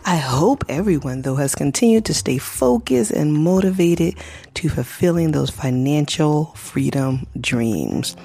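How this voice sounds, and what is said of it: Sick-sounding voice. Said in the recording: “Excuse my voice. ... I have been sick and the cold is still lingering.”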